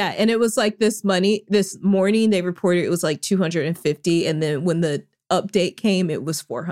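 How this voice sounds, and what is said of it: Usual voice. Nothing is said of it.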